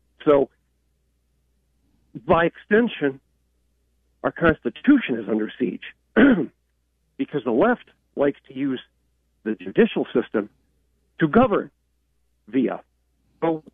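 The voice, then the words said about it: Slightly rough, unwell-sounding voice. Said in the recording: “my voice is a little messed up”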